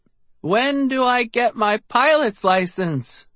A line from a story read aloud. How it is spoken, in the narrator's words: I cried